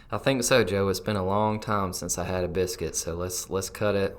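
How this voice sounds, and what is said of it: Southern American twang. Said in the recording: “with a southern twang.”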